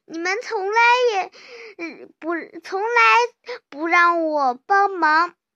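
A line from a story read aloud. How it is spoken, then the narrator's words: Sobbing duck. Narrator (Chinese): 鸭子哭哭啼啼地说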